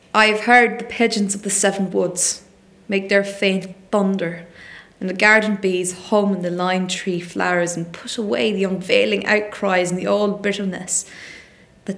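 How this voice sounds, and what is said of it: Put-on Cork Irish accent. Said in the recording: “I'll go with a Cork accent.”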